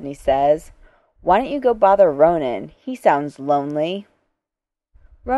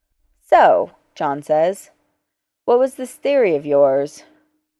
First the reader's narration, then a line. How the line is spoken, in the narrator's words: Rodney sighs